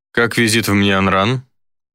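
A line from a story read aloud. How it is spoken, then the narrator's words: Cold inquiring. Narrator (Russian): холодно поинтересовался Гидеон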